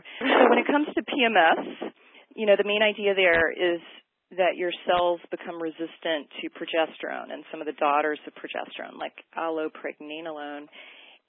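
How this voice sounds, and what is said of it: Hoarse voice. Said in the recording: “You can hear my low thyroid today. ... you can have a hoarse voice. You can hear it in me sometimes.”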